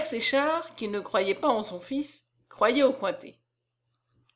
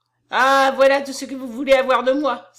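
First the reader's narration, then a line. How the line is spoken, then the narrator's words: Exclaimed. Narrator (French): s'écria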